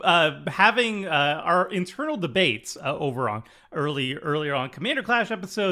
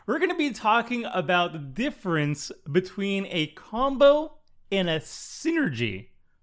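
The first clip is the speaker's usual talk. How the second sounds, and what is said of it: Voice cracks mid-sentence. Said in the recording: “Why did my voice crack?”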